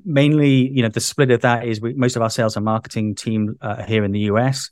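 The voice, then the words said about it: British English accent. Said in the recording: “as you can tell from my accent, I'm originally from the UK”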